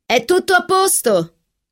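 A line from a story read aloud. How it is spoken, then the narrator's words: Shouted. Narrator (Italian): gridò Catherine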